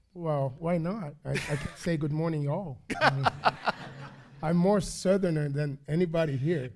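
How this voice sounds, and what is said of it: Foreign accent, not local. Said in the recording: “by the accent, we'll be able to tell pretty quickly you're not from around here”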